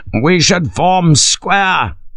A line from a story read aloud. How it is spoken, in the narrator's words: Major Vine, the battalion's senior major, shouted